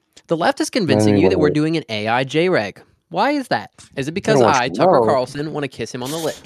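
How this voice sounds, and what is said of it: Imitates another person's voice. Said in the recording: “doing a gay Tucker Carlson impression ... That's pretty good.”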